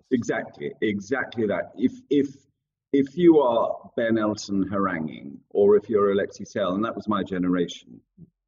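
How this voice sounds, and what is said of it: Oxbridge English accent. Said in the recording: “your beautiful Oxbridge accent”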